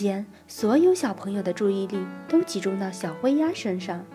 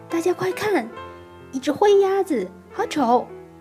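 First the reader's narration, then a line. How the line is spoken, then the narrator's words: Child shouting. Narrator (Chinese): 其中一个小男孩就嚷道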